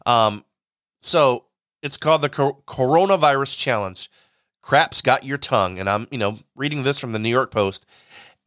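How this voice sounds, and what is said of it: Nasal, congested voice. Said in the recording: “I sound kind of nasally. ... my sinuses have been really flared up”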